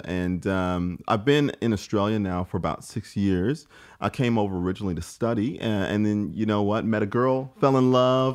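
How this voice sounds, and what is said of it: American Midwestern accent. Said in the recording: “if you can't tell by my accent, um, I'm from St. Louis, Missouri, uh, in the, the United States”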